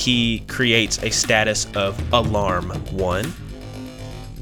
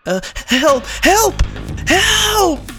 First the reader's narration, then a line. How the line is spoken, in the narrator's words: Deacon screams out